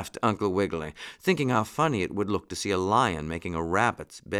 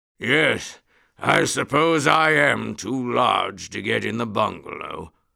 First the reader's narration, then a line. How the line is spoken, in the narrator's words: went on the roaring chap, in as gentle a voice as he could make come from his throat